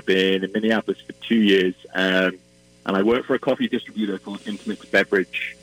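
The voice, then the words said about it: Welsh accent. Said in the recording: “I'm originally from Wales, and you might be able to tell from my accent”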